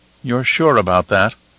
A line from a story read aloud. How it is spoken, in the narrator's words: Helena asked in a worried tone